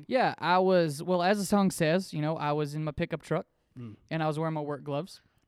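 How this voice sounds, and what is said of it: Country singer style accent. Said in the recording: “got this accent from Blake Shelton”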